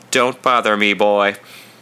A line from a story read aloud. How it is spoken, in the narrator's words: my voice had a monotone that plainly said